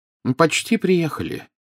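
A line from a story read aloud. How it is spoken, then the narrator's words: Cheerful announcement. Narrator (Russian): весело сообщил Дамблдор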